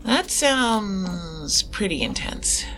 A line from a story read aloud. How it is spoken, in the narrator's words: I muttered the last part